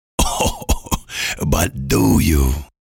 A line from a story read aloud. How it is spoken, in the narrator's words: he asked, chuckling